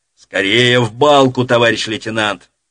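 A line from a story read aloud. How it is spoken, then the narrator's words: Shouted while running past. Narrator (Russian): Пробегая мимо вдоль стены дома, крикнул ему Крутицкий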